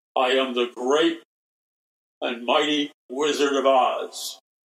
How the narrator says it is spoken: booming voice over the sound system, he says

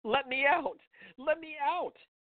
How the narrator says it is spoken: Hannah screamed

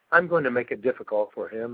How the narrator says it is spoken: says

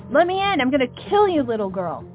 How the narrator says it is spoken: yelled

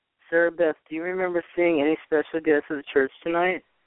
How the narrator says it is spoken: I asked

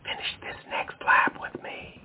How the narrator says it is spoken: she whispers

